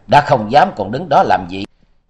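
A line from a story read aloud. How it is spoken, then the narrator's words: Loud laughing. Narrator (Vietnamese): Bạch Hoa Hồng cười lớn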